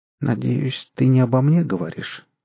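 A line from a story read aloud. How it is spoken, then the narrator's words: Sleepy voice. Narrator (Russian): сонным голосом сказала Марина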